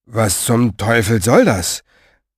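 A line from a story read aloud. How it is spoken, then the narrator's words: Muttering. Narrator (German): murmelte er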